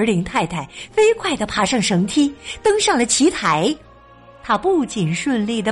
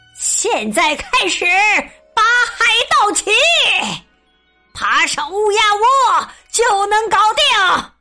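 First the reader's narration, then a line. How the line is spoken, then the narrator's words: Captain shouting. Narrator (Chinese): 鲍斯百里船长大喊道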